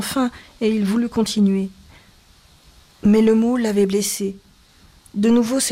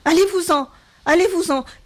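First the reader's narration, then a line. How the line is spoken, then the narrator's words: Increasingly agitated shout. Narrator (French): cria-t-elle de plus en plus excitée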